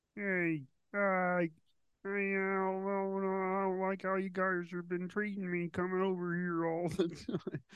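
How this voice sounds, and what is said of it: Kermit-like Ray Romano impression. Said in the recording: “whiny voice, but it's deepish ... got that Italian accent ... You're going very Kermit ... You're getting better, but it sounds like Kermit doing a Ray Romano impression”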